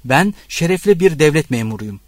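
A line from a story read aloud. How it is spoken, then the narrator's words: Shouting. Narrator (Turkish): diye bağırdı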